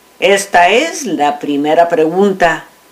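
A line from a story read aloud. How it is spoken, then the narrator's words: Plain. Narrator (Spanish): dijo el gobernador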